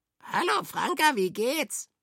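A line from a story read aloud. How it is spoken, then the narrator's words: Croaking. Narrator (German): krächzte es daneben Käpt'n Frank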